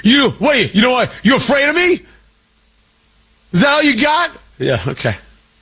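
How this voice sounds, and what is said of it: Mocking impression of a defiant official. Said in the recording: “That's exactly what the Iranian regime sounds like. My IRGC impression, pitch perfect.”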